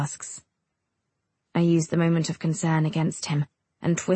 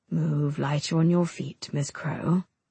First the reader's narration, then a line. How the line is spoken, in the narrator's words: he says softly